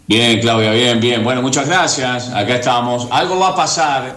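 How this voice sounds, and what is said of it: Radio announcer's voice. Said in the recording (Spanish): “Esa es voz de locutor, ¿eh? Esa es voz de locutor”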